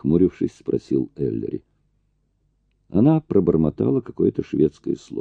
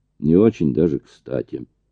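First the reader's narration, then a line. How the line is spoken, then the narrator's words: Gloomy summary. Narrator (Russian): мрачно резюмировал Эллери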